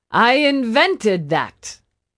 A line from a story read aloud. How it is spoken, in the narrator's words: Porfirio shouted